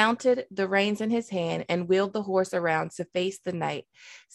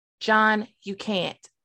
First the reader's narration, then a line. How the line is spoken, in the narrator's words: Sam said